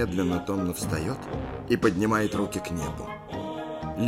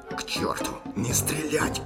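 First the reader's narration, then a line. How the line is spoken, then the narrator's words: Hissing captain. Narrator (Russian): прошипел капитан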